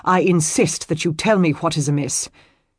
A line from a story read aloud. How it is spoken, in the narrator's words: he issued curtly